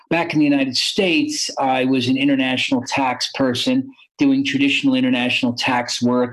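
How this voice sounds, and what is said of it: American accent. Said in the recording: “you hear an American accent.”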